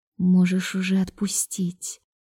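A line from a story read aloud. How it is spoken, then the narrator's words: Quiet reminder. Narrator (Russian): напомнила ему тихо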